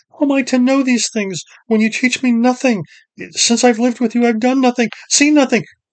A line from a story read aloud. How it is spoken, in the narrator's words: Driven by his shame, Ged cried out